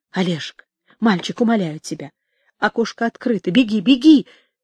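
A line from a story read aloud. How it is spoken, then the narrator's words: Urgent whisper in ear. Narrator (Russian): жарко шептала Елена Николаевна на ухо сыну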